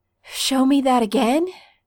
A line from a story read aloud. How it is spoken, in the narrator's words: Stiles pants